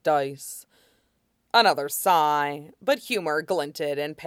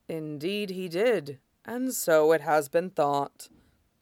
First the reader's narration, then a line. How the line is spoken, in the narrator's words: Shidan said gravely